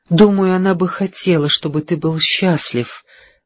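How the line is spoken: Said softly. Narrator (Russian): мягко произнесла Пэрис

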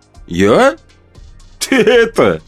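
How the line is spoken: Cheerful guffaw. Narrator (Russian): весело гоготнул отец

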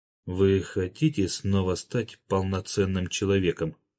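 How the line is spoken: Confiding whisper. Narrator (Russian): доверительно прошептал Николай Павлович

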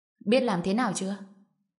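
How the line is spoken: Cold speech. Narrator (Vietnamese): Trần Bình lạnh lùng quay người, bước tới Lã Thành Sơn, lên tiếng

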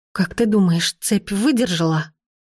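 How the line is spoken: Trembling question. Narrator (Russian): Дрожащим голосом спросила я

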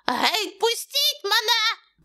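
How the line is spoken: Shrieking. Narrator (Ukrainian): верещав

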